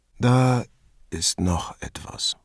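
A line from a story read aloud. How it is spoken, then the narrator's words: Tired. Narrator (German): sagte Gonzalo müde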